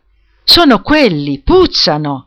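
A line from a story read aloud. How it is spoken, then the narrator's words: Disgusted exclamation. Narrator (Italian): ha esclamato, disgustata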